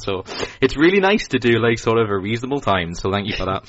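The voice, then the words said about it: Mild Geordie northeast English accent. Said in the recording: “I'm from sort of the Newcastle area, northeast of England ... nowhere near as good an accent as you ... Geordie ... I'm sort of somewhere in the middle. I'm not really full on Geordie.”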